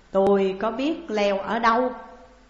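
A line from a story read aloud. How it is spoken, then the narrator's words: Head-down reply. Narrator (Vietnamese): Trí Hóa gầm đầu đáp rằng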